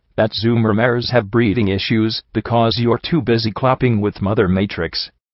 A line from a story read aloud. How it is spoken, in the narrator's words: I said in my driest tone